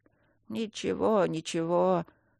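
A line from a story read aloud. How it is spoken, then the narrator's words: Old singer mumbling. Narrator (Russian): снова забормотал старый певец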